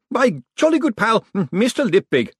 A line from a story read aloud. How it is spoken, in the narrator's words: shouted the clown